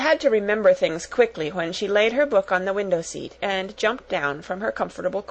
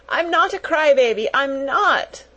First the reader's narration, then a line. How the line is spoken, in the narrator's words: wailed Lottie